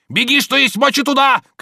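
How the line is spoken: Shouting. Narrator (Russian): кричал он

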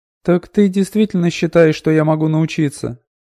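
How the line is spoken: Incredulous question. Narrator (Russian): недоверчиво спросила Аудива

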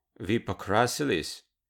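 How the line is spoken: Sighing. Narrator (Russian): Лара вздохнула

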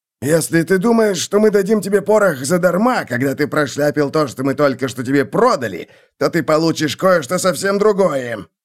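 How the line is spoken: Barked, stocky dwarf. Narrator (Russian): рявкнул коренастый рыжебородый гном

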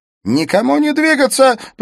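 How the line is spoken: Shouted. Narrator (Russian): прокричал Смит

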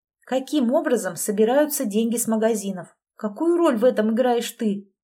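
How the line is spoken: Plain question. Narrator (Russian): спросила я

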